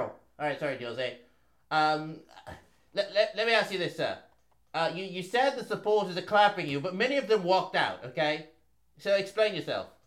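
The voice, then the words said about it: Put-on British media accent. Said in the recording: “I'll be the British media here ... Do your accent, though.”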